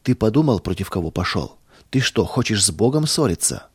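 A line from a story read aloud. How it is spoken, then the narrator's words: Calm. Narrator (Russian): спокойно сказал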